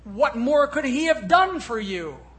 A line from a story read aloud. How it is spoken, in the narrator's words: shouted